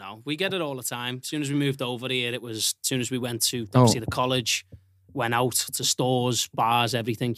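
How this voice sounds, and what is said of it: Strong non-American accent. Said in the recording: “one of our best sounding guests. The accent, bro. God. It's great, dog. ... that accent ... Americans, like mimic the accent.”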